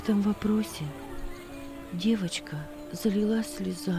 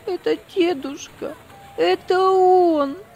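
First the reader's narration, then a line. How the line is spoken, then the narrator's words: Sob-broken voice repeating. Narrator (Russian): прерывающимся от рыданий голосом повторяла она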